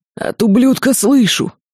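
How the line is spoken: Hoarse rasp. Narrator (Russian): прохрипел Чапай

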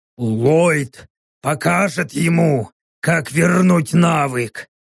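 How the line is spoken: Gloomy growl. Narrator (Russian): мрачно прорычал плотный

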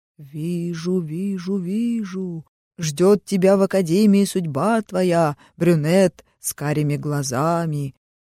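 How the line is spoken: Sepulchral voice. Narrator (Russian): она за могильным голосом произнесла

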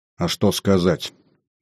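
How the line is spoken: Gloomy question. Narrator (Russian): мрачно спросила она

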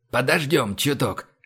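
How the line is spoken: Whisper. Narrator (Russian): шепнул Иван

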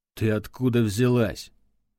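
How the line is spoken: Angry inquiry. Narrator (Russian): зло осведомился он

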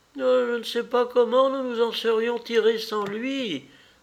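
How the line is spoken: Old woman groaning reply. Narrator (French): répliqua la vieille femme en gémissant

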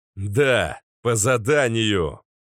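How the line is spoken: Angry growl. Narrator (Russian): Вновь рыкнул я, начиная разгонять гнев внутри

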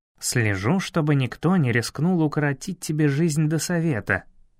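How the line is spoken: Plain. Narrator (Russian): ответил

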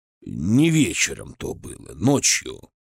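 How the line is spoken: Hoarse correction. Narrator (Russian): хриплым голосом поправил меня Томильский

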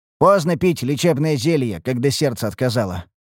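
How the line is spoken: Snorting. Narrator (Russian): хмыкнул я

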